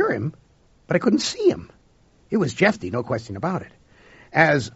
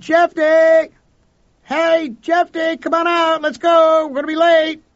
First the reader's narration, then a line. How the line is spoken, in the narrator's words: I cupped my hands around my mouth, and I yelled